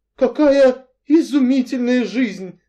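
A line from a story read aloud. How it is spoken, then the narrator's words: Envious sigh. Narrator (Russian): завистливо вздохнула миссис Ривз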